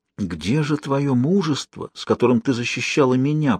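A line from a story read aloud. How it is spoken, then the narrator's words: Whisper. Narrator (Russian): прошептал Жак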